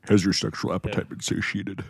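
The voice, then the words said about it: Xerxes impression. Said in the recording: “do your Xerxes impression”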